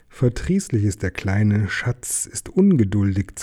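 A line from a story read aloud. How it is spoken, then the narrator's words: Hissed. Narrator (German): zischte Gollum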